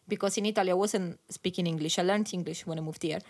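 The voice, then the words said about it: Italian accent. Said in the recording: “my Italian accent, maybe sometimes, like, it's not very clear”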